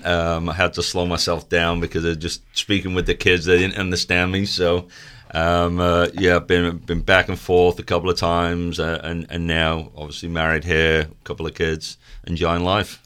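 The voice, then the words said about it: Manchester English accent, slightly faded. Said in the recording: “tell me about the accent... Originally from Manchester, England. I'm losing a lot of the accent.... all the Manchester is there”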